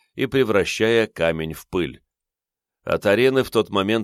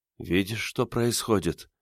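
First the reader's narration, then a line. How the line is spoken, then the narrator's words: Quiet question. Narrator (Russian): тихо спросила лорд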